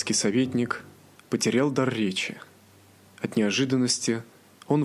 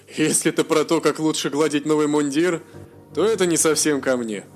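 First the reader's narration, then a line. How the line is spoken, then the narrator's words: Laughing. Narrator (Russian): засмеялся статский советник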